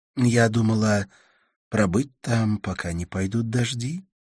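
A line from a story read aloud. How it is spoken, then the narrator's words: Soft female reply. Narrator (Russian): ответила она мягко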